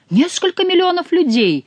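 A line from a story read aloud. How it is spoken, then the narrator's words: Surprised, alarmed exclamation. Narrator (Russian): воскликнул Генрих, даже не пытаясь скрыть своего удивления, которое с полным основанием можно было принять за испуг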